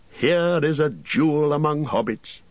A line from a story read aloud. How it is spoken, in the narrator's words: said, laughing